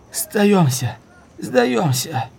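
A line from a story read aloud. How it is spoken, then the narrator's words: Weak hoarse croak. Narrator (Russian): Увы, он был так слаб, что голос казался хриплым карканьем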